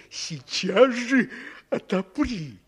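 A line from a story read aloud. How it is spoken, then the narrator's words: Wolf growling. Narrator (Russian): прорычал опять волк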